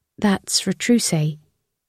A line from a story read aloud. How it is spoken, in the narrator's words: Lucy murmured